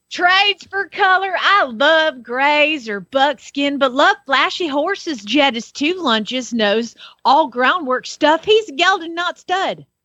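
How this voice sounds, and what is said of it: Put-on Southern US accent. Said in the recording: “with a southern accent... Sounded prettier”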